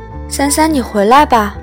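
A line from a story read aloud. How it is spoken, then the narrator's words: Calling out. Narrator (Chinese): 母亲喊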